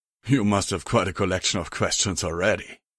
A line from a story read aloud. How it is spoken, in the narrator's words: he replied with a chuckle